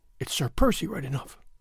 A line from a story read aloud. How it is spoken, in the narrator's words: she murmured